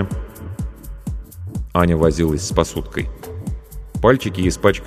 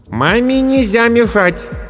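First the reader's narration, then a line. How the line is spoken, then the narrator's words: Loud. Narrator (Russian): громко сказала Аня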